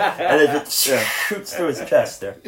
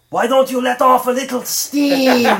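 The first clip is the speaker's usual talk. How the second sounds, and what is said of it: Arnold Schwarzenegger impression. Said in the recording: “good Arnold impression”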